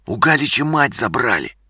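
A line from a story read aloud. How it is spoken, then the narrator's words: Whisper. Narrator (Russian): прошептал Игорь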